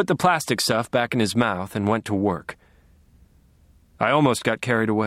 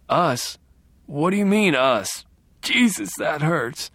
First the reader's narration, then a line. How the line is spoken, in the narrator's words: whimpered